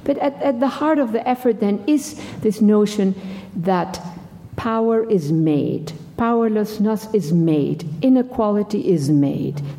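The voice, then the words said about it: Non-native foreign accent in English. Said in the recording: “I am not a native English speaker ... my foreign sort of accent in English”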